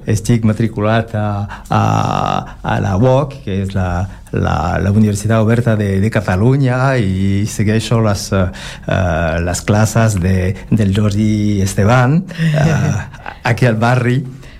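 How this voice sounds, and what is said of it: Non-native accent speaking Catalan. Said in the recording (Catalan): “cal disculpar el meu accent, el meu pobre català, perquè fa només 6 mesos que aprenc català”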